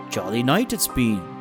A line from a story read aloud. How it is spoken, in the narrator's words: the boy said